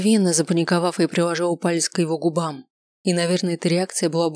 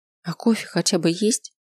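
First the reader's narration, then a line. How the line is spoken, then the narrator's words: Giggling. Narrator (Russian): хихикнул я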